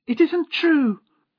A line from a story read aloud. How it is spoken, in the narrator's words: cried Lady Blemley